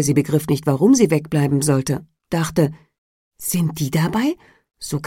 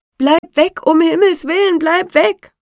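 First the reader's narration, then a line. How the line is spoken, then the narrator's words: Group shouting. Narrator (German): schrien die anderen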